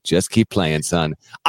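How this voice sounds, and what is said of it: Morgan Freeman impression. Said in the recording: “my Morgan Freeman impression”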